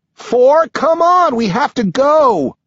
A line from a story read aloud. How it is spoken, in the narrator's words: Eight shouts